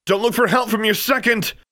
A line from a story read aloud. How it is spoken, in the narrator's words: Diana Grimm yelled